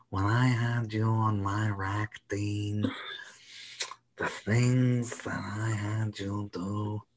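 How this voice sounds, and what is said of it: Godfather-like villain voice impression. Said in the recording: “very, very like the Godfather ... That's a very good impression. ... That's amazing.”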